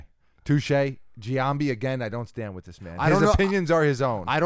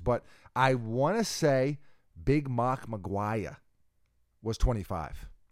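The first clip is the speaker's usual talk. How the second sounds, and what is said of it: Put-on Boston accent. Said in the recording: “I don't know why I said that with a Boston accent”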